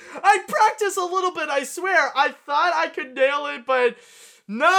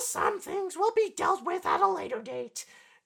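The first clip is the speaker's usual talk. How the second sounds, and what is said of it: Poor imitation of cartoon mother voice. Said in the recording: “did a really crappy Marge impression. ... it didn't come out right this time”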